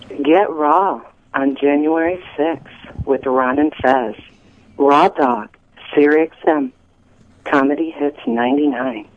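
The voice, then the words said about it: Sultry, sexy-sounding voice. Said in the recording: “That's a sexy voice. ... That is a sexy voice.”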